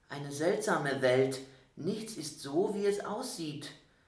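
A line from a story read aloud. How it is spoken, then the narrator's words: Quiet. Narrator (German): sagte er leise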